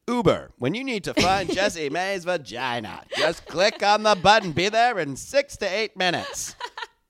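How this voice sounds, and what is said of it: Commercial announcer voice. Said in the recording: “That's always your announcer voice.”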